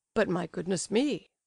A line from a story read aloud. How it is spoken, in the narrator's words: laughed Ivan Petrovitch